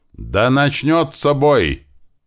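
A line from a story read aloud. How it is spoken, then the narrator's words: Yelling into microphone. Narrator (Russian): заорал он в микрофон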